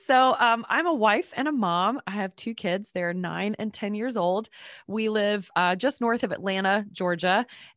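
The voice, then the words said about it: Congested, unusually deep voice. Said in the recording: “I'm a little congested. ... my voice is not usually this deep, so I feel very sultry right now.”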